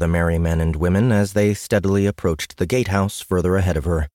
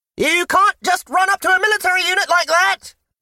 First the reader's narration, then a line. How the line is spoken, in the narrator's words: He shouted after her